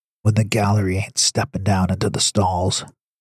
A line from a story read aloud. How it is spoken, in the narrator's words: Hank whispered with a wink